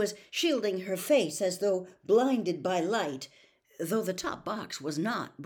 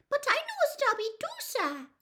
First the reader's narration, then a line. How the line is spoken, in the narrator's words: squeaked the elf